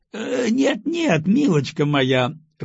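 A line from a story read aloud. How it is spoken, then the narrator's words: Laughing. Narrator (Russian): рассмеялся Николай Нилович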